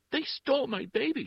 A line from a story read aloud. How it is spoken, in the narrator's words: she shrieked